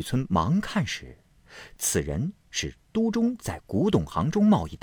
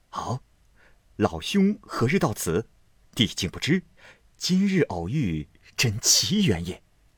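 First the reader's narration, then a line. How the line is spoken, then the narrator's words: Hasty, laughing question. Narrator (Chinese): 雨村忙笑问道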